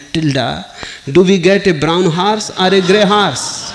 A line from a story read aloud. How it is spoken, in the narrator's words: The farmer shouted